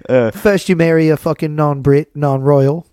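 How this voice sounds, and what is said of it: Put-on accent. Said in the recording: “I was waiting for the accent.”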